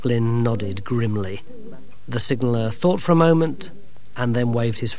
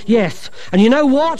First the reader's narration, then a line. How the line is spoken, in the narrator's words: he yelled